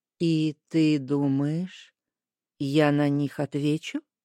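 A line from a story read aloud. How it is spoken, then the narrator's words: Soft clarifying. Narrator (Russian): мягко уточнил смотрящий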